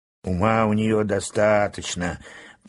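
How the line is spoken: Grumbling. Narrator (Russian): проворчал моряк

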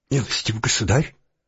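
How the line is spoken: Nearly whispering. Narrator (Russian): произнес, наконец, наш герой, стараясь говорить почти шепотом

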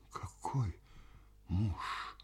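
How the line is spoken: Whisper. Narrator (Russian): прошептала Паша

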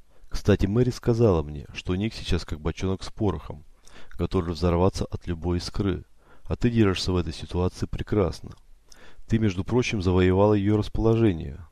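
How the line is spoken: Calm. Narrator (Russian): добавил он спокойно

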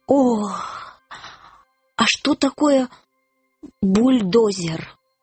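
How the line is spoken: Groaning. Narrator (Russian): Рыцарь застонал

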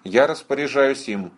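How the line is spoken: Cold. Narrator (Russian): холодно сказала капитан

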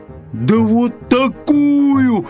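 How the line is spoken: Bear cub's yell. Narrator (Russian): завопил медвежонок

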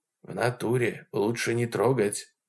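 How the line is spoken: Whisper. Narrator (Russian): прошептал Вовка

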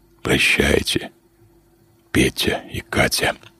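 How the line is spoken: Sigh, then whisper. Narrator (Russian): Лазарь вздохнул и прошептал

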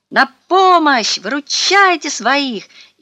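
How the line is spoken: Shout. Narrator (Russian): крикнул

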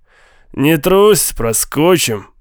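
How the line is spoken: Through gritted teeth. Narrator (Russian): процедил Голд

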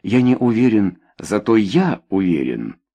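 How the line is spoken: Calm declaration. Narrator (Russian): спокойно заявил Вальдец

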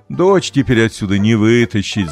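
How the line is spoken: Laughing. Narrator (Russian): засмеялся папа

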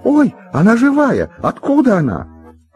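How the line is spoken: Sudden scream, woman. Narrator (Russian): Мама как закричит

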